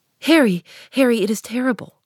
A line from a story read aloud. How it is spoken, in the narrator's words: cried the lad